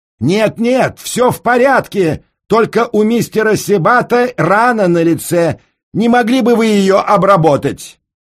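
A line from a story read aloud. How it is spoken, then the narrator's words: Loud shout. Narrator (Russian): Холмс все так же громко прокричал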